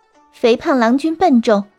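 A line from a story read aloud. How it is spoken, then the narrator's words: Laughing fox woman. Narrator (Chinese): 狐女笑着说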